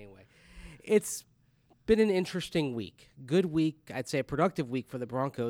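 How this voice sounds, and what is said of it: Usual voice. Nothing is said of it.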